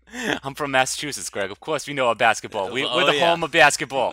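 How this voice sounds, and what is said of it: Put-on Massachusetts accent. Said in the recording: “I'm glad you got into the accent early”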